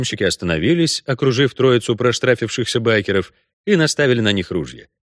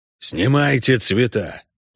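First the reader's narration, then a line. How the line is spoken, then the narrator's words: Through gritted teeth. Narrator (Russian): процедил Хорн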